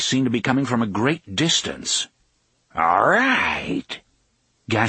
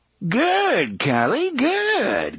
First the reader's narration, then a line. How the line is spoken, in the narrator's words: Gasher cried cheerfully